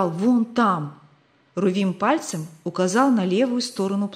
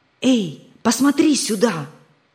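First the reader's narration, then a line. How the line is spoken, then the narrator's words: Loud whisper. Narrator (Russian): громко прошептал он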